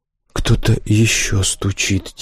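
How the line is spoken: Quiet. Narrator (Russian): тихо сказал он

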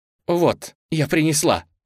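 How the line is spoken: Exclaimed. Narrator (Russian): воскликнула она

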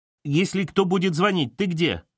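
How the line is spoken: Shouted after someone. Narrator (Russian): вслед ей прокричала Ирочка

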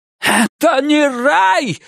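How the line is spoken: Shout. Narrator (Russian): закричал он

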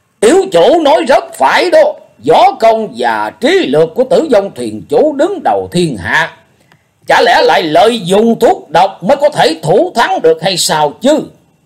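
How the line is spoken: Many loud voices calling. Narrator (Vietnamese): khá nhiều người lớn tiếng nói vọng vào

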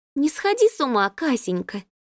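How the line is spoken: Gentle. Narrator (Russian): ласково ответила Дана

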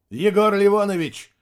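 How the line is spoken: Loud bark. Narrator (Russian): гаркнул Максим

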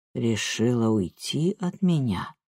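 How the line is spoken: Slow speech. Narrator (Russian): медленно так произнес

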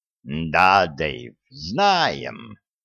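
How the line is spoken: Purring. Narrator (Russian): промурлыкал

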